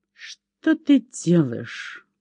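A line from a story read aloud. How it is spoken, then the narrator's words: Quiet through gritted teeth. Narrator (Russian): процедил Лаки сквозь зубы, стараясь говорить тихо и не привлекать общего внимания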